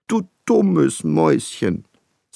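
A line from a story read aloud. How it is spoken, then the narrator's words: Coaxing voice. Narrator (German): sagte ich mit schmeichelnder Stimme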